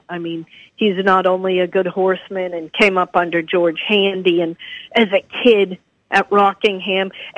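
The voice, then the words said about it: New England accent. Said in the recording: “your dad was really a New England guy. And obviously by your accent, that still stays with you.”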